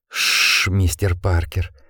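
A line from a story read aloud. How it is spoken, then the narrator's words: Whisper in the ear. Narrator (Russian): прошептал ему на ухо Гардинер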